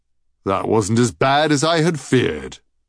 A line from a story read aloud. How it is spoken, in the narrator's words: he said cheerfully